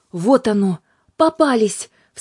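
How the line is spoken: Alarmed shout. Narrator (Russian): встревоженно закричал Юлиус

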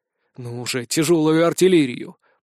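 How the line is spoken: Growling. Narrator (Russian): прорычал

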